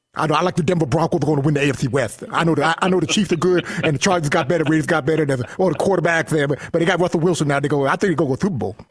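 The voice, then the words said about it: Imitates another person's voice. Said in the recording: “does his Shannon Sharp... Do your Shannon Sharp voice.”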